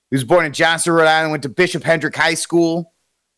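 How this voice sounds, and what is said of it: Exaggerated Rhode Island accent. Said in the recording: “Some of you guys are going to get a wicked accent right here”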